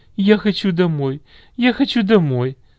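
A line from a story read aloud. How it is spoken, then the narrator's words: Sobbing. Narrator (Russian): всхлипывала она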